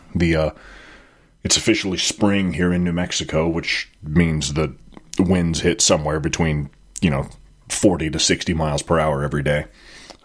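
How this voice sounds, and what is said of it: Sniffly, congested voice. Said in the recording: “I'm a little little hoarse. maybe not hoarse, but definitely sniffly right now.”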